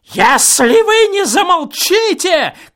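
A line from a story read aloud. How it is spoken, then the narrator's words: Shouting, choking with rage. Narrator (Russian): крикнул, захлебываясь от злости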